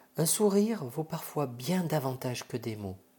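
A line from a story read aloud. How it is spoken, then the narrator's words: Whispering. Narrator (French): chuchote Monsieur Igor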